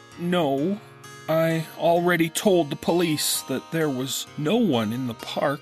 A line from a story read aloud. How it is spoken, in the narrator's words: she says sadly